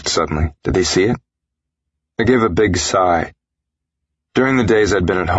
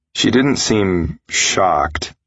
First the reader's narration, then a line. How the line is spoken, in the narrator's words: I said slowly